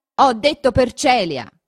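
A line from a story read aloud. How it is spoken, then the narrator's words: Shouted in someone's face. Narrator (Italian): gridò questo sul viso di Renzo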